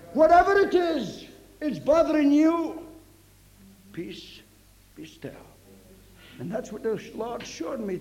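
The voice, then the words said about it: Slight Scottish accent. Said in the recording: “Maybe a little Scotch accent”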